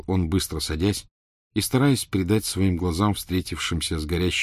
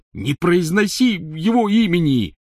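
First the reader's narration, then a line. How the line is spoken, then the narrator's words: Angry shout from tent. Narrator (Russian): сердито крикнул из палатки Рон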